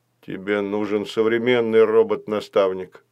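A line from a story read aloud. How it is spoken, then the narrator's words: Sad. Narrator (Russian): печально сказал Баюн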